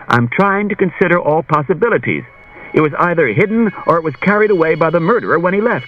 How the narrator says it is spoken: Bailey said impatiently

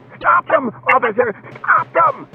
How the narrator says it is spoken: The manager was shrieking

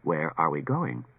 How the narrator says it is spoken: asked R

